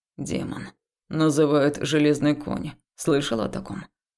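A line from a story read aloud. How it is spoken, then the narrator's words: Quiet reply. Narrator (Russian): Негромко ответил Хаул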